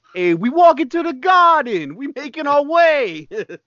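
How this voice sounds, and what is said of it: Put-on Bronx accent. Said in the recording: “Bronx, for some reason. ... his accent is basically, hey, I'm walking over here every time.”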